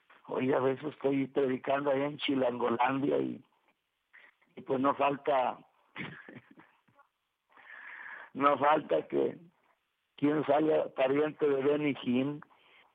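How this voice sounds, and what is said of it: Raspy voice, northern Mexican accent. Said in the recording (Spanish): “esta voz aguardientosa, con esta voz que me delata... este acento norteño, este acento monterreyeno de Monterrey que nos delata”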